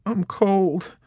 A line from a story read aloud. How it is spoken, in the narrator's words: Snowden moaned